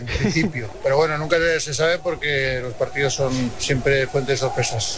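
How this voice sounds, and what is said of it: Strong Aragonese-accented impression voice. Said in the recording (Spanish): “me ha salido acento mañito. ... Pero mucho, bastante.”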